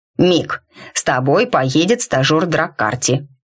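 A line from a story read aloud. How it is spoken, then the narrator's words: Amused snort, troll. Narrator (Russian): фыркнул тролль, которого реакция законника позабавила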